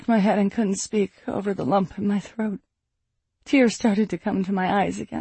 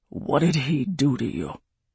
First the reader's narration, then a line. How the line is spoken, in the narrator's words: Graykin growled